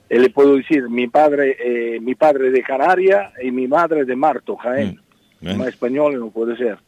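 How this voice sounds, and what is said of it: Spanish spoken with Italian accent. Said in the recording (Spanish): “se ha quedado el acento italiano ... Pero el acento italiano se ha quedado.”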